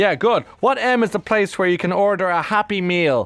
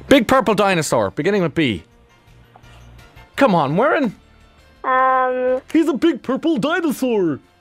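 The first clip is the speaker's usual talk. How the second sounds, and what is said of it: Impression of Barney the dinosaur. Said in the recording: “I had to do my impersonation of him”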